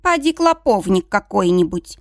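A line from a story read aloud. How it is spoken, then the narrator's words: Mother grumbling. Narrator (Russian): проворчала мама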